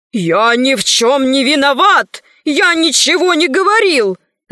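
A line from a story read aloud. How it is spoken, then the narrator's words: Shouting. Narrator (Russian): закричал он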